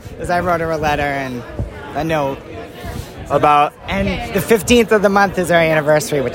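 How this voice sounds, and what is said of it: Slightly hoarse, strained voice. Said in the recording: “I'm losing my voice a little bit”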